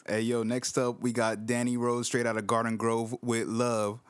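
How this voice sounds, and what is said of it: Imitates another person's voice. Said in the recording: “impersonation”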